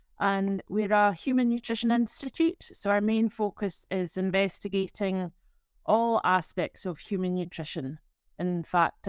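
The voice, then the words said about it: Scottish accent. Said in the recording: “is from Scotland. I think it's pretty clear from your accent.”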